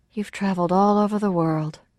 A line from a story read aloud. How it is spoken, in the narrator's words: said dreamily